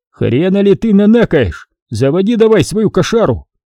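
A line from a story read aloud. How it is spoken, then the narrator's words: Shouted. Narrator (Russian): крикнул я ему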